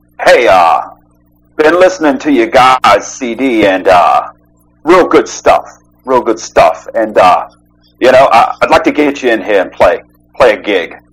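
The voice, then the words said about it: Old school gangster accent. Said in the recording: “he had like a serious, I don't know, like gang, like old school gangster accent.”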